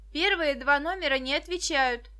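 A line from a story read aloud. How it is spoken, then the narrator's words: Shouted. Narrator (Russian): крикнула Тамара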